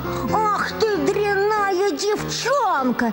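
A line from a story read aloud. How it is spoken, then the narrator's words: Mother shouting angrily. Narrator (Russian): закричала на нее мать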